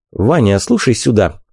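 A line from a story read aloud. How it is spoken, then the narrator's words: Quiet, in Russian. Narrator (Russian): негромко сказал Вик по-русски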